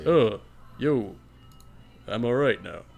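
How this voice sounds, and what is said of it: Imitates another person's voice. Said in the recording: “that was a good side impression... That sounded more like John Wick.”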